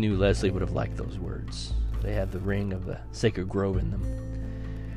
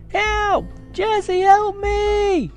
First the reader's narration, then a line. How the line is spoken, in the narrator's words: A scream shattered the quietness